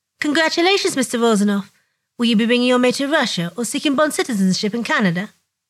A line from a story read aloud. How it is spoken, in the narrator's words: she clears her throat and says